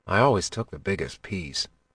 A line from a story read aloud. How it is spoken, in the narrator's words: he whispered